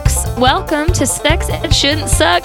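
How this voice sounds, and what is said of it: Put-on folksy accent. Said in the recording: “I'm stuck in an accent... That whole accent happened because I decided to try and use the word folks”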